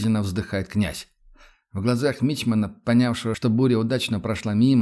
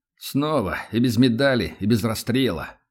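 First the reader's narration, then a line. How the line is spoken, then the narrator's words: Dejected, grieving voice. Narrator (Russian): упавшим голосом сокрушается Влад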